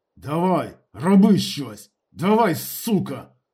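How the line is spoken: Hissed. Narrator (Ukrainian): шипів

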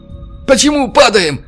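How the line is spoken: Shouted. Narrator (Russian): крикнул белорус

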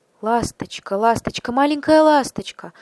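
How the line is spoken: Pleading. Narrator (Russian): взмолился принц

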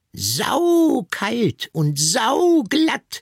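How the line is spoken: Piglet shouting happily. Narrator (German): schrie das Ferkel glücklich

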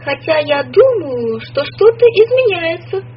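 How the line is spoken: Loud. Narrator (Russian): сказала она громко

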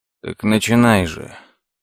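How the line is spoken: Weary sigh. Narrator (Russian): Лес устало вздохнул

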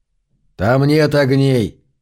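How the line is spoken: Plain. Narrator (Russian): сказал Зарк

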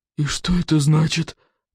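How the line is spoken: Faint whisper, barely moving lips. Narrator (Russian): прошептал он, еле шевеля побелевшими губами

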